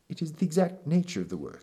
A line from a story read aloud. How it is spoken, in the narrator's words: he said